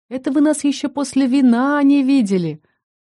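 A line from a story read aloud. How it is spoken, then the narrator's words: Joyful. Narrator (Russian): радостно сообщила королю Лариса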